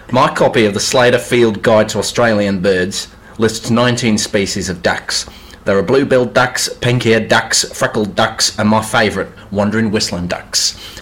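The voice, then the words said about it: Put-on Australian accent. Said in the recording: “Did you just want to show off how good your Australian accent is? ... Which is better than your Italian, I must say.”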